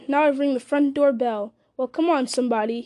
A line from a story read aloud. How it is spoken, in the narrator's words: he cried